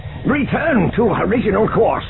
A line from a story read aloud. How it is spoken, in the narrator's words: Zinge shouted